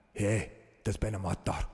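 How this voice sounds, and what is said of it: Scottish accent. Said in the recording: “Did you have to do Taggart's in the Scottish accent? ... Can you say murder? ... Not bad.”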